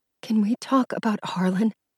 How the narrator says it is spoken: asked in a whisper

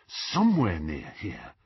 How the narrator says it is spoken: Harry muttered to himself

